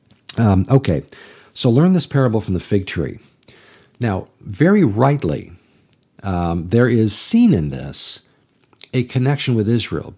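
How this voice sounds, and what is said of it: Dry, strained voice. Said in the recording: “my voice has just been very dry for a little bit”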